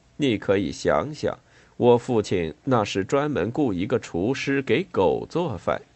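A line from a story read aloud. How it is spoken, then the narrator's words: Speaking with slight smile. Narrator (Chinese): 胡里奥·利阿德基微微一笑说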